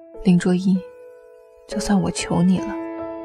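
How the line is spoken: Suppressed low voice, phone. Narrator (Chinese): 你在电话那头 压着声音低沉地说

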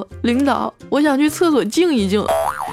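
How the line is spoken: Glum, pleading. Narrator (Chinese): 小黑哭丧着脸说

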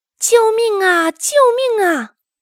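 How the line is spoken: Old man, trembling. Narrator (Chinese): 老翁 颤抖着说

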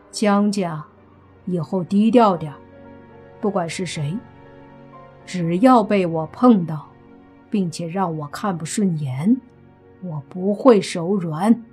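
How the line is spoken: Flat, indifferent. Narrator (Chinese): 莫凡淡淡的说道

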